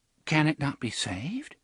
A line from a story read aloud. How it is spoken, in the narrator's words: she asked rather timidly